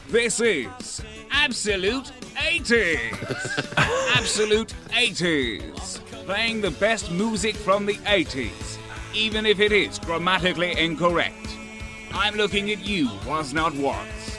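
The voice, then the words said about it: Impression of Matt Berry. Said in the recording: “doing impressions of Matt Berry. He does an amazing impression of Matt Berry ... this guy does an amazing impression of him”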